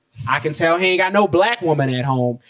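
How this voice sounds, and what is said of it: Put-on accent imitating another person. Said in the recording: “I hate to put on that accent, but that's how it came out.”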